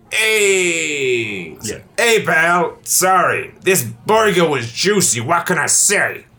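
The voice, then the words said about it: Exaggerated New York accent. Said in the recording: “Could you do this in like a big New York accent? ... Practice my New York.”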